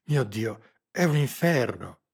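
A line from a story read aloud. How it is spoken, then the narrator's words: Bewildered, incredulous, frightened exclamation. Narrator (Italian): esclamò in un tono che tradiva tutto il suo sconcerto, la sua incredulità, la sua paura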